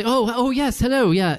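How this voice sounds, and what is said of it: Imitated British accent. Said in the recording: “he has a British accent.”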